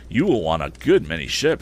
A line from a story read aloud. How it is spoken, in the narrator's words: said I